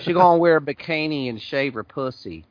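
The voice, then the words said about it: Put-on accent, improving. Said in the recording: “That was better accent... Getting better.”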